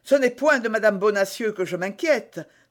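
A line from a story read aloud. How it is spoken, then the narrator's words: Cried out. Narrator (French): s'écria d'Artagnan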